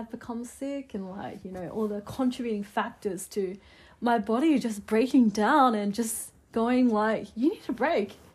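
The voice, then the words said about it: Funny voice from illness and cough. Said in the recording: “I have this accent... I have a bit of a funny voice because I've been sick and I'm still recovering from the cough”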